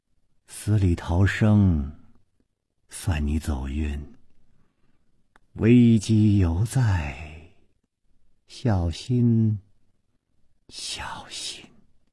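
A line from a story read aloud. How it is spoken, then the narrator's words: Dazed woman murmuring. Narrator (Chinese): 白衣美妇呆呆地出了半天神，喃喃地说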